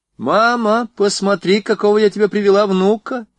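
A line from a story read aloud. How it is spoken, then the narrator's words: Cheerful shout from hallway. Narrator (Russian): весело закричала она из передней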